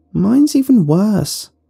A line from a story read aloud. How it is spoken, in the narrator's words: one girl cried out